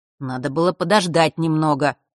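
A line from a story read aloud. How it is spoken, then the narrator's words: Grumbled. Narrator (Russian): пробурчал тот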